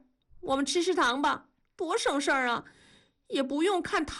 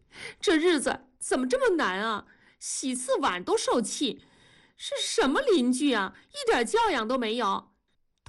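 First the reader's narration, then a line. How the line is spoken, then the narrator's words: Crying, aggrieved. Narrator (Chinese): 文丽哭了，委屈地说道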